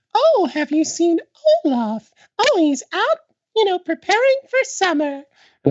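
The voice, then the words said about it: Imitates a theme park princess. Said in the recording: “Good impression there.”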